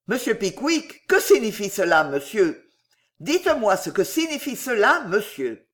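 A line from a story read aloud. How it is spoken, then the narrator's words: Exclaimed. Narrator (French): s'écria M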